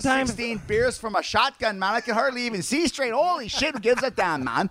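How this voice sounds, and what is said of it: Exaggerated Canadian character accent. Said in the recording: “My accent's worse than yours. ... when ... had too many drinks, he turned into Gordy.”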